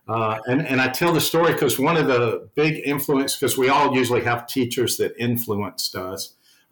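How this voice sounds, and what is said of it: Southern US accent. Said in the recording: “being from the South, if people can't tell from my accent”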